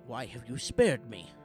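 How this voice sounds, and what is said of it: Old man character voice. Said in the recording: “Old man voice. ... Yeah, he was kind of an old man.”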